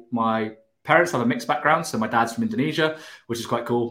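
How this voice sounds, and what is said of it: British accent. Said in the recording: “I'm from the UK, as you can hear from the accent”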